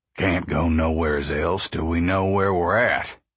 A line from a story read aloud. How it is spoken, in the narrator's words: Pa said